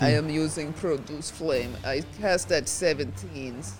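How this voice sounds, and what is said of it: Inaccurate put-on Russian/Swedish accent. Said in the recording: “I don't know why I'm doing weird voices... Is that your Russian accent?... No, I went from like weird Russian to weird Swedish or something. Neither of which are even close to being accurate... That's Russian.”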